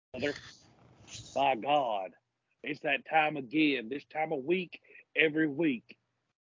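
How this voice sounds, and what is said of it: Bad redneck-style imitated voice. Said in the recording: “worst Jim Ross impersonation ... That is pretty bad ... I thought you were just doing, like, redneck”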